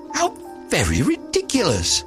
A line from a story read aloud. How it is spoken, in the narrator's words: the little lizard, who was something of a cynic, laughed outright